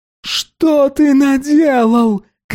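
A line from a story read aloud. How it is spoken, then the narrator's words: Shouting. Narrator (Russian): кричала на Билли Берн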